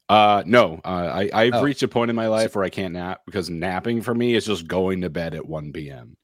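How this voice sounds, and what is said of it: Voice sounds off, sick. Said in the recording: “I'm sure you can hear my voice is off. I have been sick for the last couple days.”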